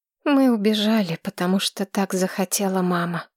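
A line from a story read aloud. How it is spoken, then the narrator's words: Quiet. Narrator (Russian): тихо сказала Маргарет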